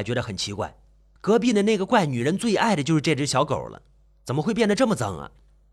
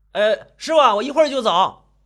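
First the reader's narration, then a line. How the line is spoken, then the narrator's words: Shouting. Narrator (Chinese): 李德胜就大喊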